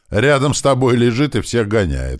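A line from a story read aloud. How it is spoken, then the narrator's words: Shouted. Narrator (Russian): крикнул нам Георгич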